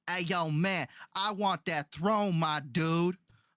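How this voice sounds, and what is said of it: Imitates a character's snarky street accent. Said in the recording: “his entire accent and his ghetto vibe ... his really ghetto snarky vibe”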